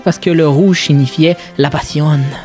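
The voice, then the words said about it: Put-on accent. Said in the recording (French): “Pourquoi j'ai pris cet accent-là? J'ai aucune idée, mais quand je dis passion... Il y a plein de personnages en toi.”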